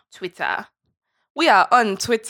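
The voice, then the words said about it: Put-on generalized African accent. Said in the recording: “Wakanda accent coming back hard ... My non-committal generalized ... African accent”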